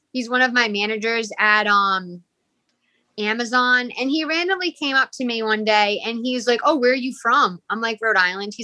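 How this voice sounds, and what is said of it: Rhode Island accent. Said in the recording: “With that accent? ... this is a Rhode Island accent”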